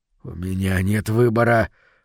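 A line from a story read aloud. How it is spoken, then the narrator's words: Mumble with slight smile. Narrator (Russian): пробормотал Говард, слегка улыбаясь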